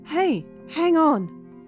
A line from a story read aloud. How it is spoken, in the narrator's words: starts forward, shouting